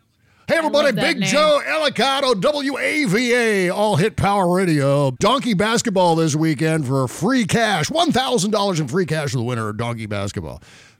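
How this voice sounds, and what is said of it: Exaggerated radio DJ voice. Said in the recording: “That's the DJ shit. That's this guy. That was just me doing an impression of him. I have no idea what he really sounds like.”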